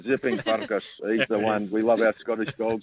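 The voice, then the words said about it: Put-on Scottish accent. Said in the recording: “give us the accent. Come on. I know you love it. The Scottish ... accent.”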